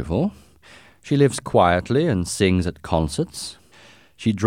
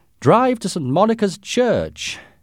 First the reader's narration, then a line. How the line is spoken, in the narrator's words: shouted